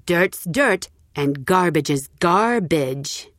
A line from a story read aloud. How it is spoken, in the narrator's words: said